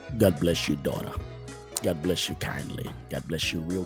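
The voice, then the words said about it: Preacher-style voice. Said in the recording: “let me get my preacher voice on”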